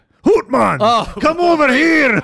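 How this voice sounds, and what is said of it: Put-on Scottish accent. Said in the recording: “my Scottish impression.”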